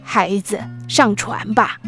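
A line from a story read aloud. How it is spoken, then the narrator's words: Kind voice from afar. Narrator (Chinese): 一个慈祥的声音从远处传来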